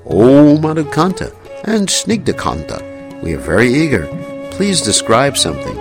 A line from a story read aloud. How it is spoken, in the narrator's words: The king ordered in a sweet voice